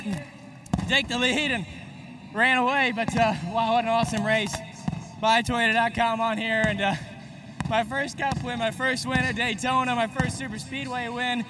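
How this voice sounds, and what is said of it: Breathless, out-of-breath speech. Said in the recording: “I'm out of breath. Too much smoke in the car from that burnout. I can barely breathe”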